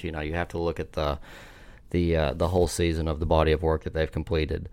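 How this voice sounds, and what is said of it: Deep Appalachian Southern US accent. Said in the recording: “deep Appalachian accent from me ... the southern one you're rocking over there”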